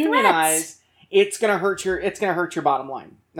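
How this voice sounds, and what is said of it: Usual voice. Nothing is said of it.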